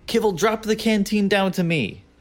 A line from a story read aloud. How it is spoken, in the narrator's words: I yell up